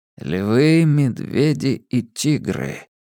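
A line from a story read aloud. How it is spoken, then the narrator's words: Muttered. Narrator (Russian): пробормотал Абеттик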